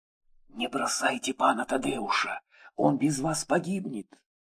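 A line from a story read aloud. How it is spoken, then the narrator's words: Whisper. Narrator (Russian): шепнула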